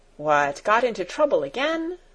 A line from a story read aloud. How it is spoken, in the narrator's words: said Sebastian in a cheerful voice